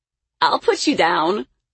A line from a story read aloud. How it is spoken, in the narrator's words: he said, laughing